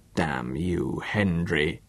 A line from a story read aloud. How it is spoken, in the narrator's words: His voice unnaturally low